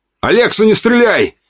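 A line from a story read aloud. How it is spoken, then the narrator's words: Belated shout. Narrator (Russian): запоздало крикнул я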